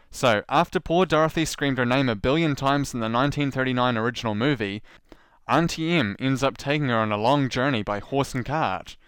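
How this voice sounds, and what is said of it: New Zealand accent. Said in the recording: “I'll stick with my New Zealand accent, otherwise it sounds fake”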